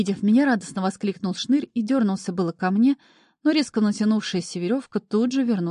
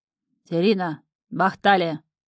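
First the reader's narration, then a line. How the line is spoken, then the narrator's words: Menacing. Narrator (Russian): грозно сказал он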